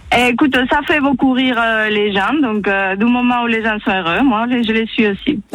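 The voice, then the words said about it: Spanish accent speaking French. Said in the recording (French): “Ton accent, mon Dieu, il est magnifique ... il est d'où ton accent? ... Et je suis espagnole ... C'est beau l'accent espagnol.”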